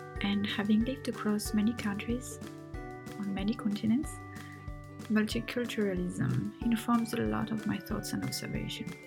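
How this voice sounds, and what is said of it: French accent. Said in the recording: “As you can hear from my accent, I'm French. Well, half French, half Tunisian”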